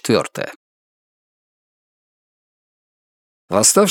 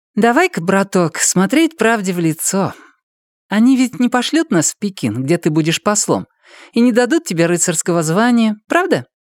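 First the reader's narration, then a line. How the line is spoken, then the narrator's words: Cheerful. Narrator (Russian): весело обратилась она ко мне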